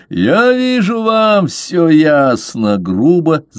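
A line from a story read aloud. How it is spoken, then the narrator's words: Loud laughter. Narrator (Russian): захохотал Бишоп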